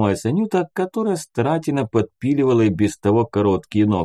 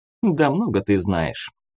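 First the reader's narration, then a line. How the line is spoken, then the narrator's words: Snort. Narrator (Russian): хмыкнула Таня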